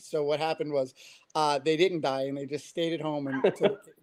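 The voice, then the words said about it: Queens, New York accent. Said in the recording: “I grew up in Queens, New York. If my accent didn't give me away”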